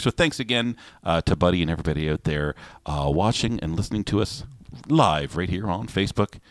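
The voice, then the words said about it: Smooth radio announcer voice. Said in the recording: “You've got a good radio voice”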